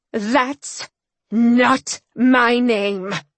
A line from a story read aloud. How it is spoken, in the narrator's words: I growled